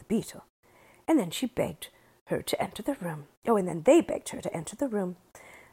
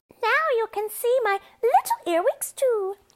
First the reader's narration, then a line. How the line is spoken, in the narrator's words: cried